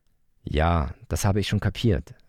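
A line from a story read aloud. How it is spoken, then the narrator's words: Sighed. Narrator (German): seufzte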